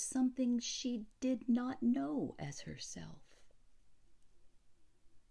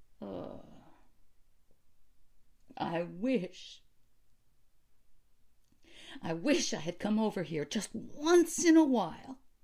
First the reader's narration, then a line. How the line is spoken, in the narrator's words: she cried